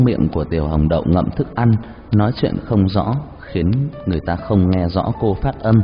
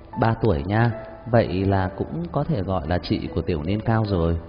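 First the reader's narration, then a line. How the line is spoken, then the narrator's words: Soft laugh. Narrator (Vietnamese): Hứa Gia Mộc cười khẽ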